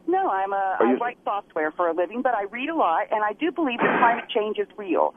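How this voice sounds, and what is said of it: Southern American accent. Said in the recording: “Maybe it was my southern accent that threw you off.”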